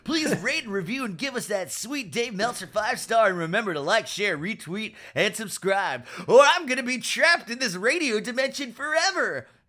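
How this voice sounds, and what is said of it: Funny put-on voice. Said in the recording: “I'm using a funny voice.”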